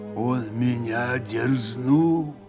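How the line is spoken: Gloomy, deliberate. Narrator (Russian): мрачно и раздельно произнес Григорий

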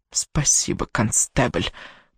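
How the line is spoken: Grudging grumble. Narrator (Russian): проворчала она в ответ

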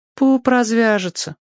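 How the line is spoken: Sighing. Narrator (Russian): вздохнула та

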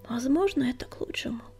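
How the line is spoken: Sighing. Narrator (Russian): вздохнул он

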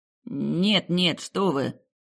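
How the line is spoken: Babbling timidly. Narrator (Russian): пролепетал бедняга

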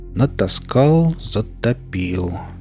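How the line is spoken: Slow speech. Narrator (Russian): медленно произнес я

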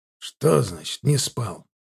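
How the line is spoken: Snorting. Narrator (Russian): фыркнул Мшистый

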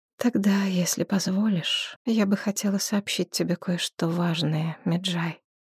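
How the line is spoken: Soft. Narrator (Russian): мягко проговорила Нитокерти

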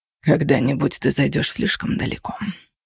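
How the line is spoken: Grumbling. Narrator (Russian): проворчал Кости

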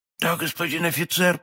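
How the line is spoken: Terrified mumble. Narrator (Russian): пробормотал галантерейщик, чуть живой от страха

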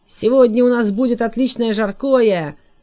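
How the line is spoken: Shouting. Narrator (Russian): закричал Лухта

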